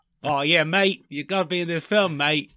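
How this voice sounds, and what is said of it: Put-on Australian accent. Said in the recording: “That's my Australian accent.”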